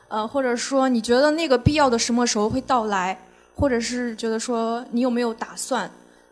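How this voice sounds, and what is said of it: Xinjiang-accented Mandarin. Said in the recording (Chinese): “一听口音就是我们新疆老乡”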